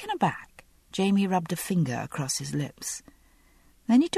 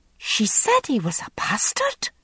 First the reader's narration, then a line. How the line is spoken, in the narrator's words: Massali burst out indignantly